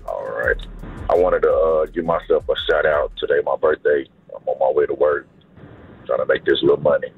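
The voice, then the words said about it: Scratchy voice. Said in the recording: “your voice is a little scratch”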